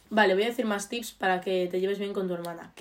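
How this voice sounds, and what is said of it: Galician accent in Spanish. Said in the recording (Spanish): “No me dicen que tenemos acento. ... porque somos gallegas.”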